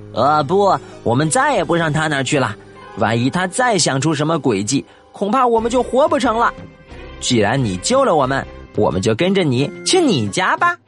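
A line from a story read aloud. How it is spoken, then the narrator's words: Squeaky chattering voices. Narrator (Chinese): 小魔鬼们却吱吱喳喳叫着说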